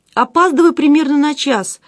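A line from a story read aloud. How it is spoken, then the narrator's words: Guilty voice. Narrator (Russian): виноватым голосом продолжила она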